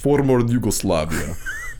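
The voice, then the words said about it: Put-on accent, much lower voice. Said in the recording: “in the accent? ... Your voice every time goes down like 400.”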